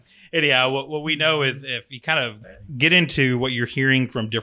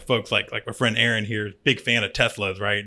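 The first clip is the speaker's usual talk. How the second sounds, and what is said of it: Sarcastic tone. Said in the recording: “Was it sarcastic? ... That was sarcastic.”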